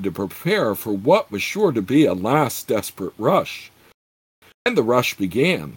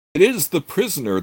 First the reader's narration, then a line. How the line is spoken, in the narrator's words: the veiled nomad shouted